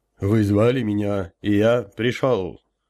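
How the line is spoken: Booming drone. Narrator (Russian): прогудел я

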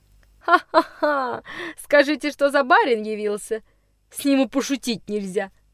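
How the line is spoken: Loud mocking laughter. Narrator (Russian): Пуще расхохотался Никс

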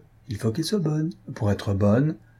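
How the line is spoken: Mischievous tone. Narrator (French): ajouta-t-elle d'un ton malicieux

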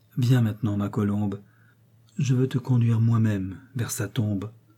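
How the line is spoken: Moved murmur in ear. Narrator (French): murmura à son oreille une voix émue

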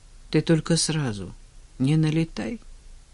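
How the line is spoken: Quiet request. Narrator (Russian): тихо попросил Женя

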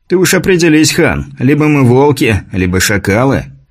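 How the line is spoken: Smirking soldier objecting. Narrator (Russian): хмыкнув, возразил десятник

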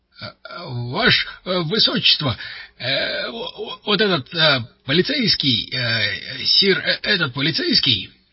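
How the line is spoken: Stammering explanation. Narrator (Russian): запинаясь, стал объяснять дежурный

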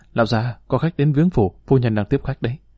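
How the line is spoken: Hurried, quiet report. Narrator (Vietnamese): Các quản gia vội vàng nhỏ giọng thưa

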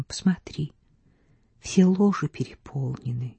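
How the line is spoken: Whispered reply. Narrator (Russian): Она ответила шепотом

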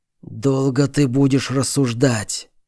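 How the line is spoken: Hateful rasp. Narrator (Russian): с ненавистью прохрипел босс

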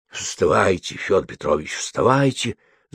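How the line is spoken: Crowd whispering. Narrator (Russian): зашептали вокруг

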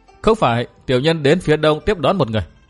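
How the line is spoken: Cold, thin laugh. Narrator (Vietnamese): Đỗ Tam cười nhạt

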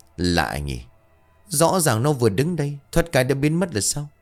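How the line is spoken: Old man muttering. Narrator (Vietnamese): ông Phó Dầu bấy giờ liền lẩm bẩm

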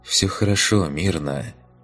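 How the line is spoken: Soft whisper. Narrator (Russian): тихо прошептал он

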